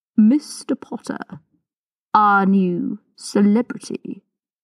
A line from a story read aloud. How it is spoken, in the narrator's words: drawled